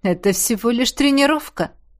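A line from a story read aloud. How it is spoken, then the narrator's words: Shadow's scoffing snort. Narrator (Russian): хмыкнул тень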